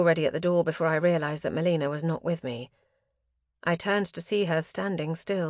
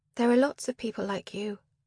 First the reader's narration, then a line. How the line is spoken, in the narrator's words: I said quietly